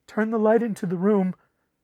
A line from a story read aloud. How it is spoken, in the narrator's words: begged Griswell